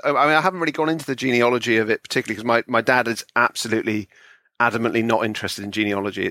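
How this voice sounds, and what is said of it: Accent that sounds upper-class. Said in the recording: “you just sound it. ... it's only the accent”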